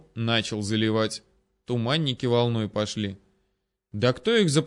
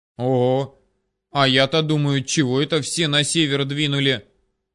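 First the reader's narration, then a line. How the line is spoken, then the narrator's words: Glad exclamation. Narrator (Russian): обрадованно воскликнул возница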